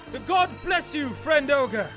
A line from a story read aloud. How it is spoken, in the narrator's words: shouted Turm